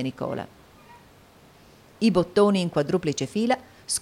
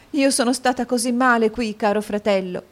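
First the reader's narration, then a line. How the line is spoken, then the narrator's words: Sobbing. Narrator (Italian): singhiozzò la povera Caterina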